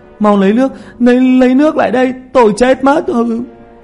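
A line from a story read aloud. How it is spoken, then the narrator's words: Wailing, screaming. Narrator (Vietnamese): Tiểu Mã kêu gào dưới thân của Thi Vương, hét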